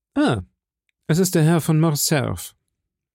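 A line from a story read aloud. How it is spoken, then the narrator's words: Calm speech. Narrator (German): sagte ruhig Monte Cristo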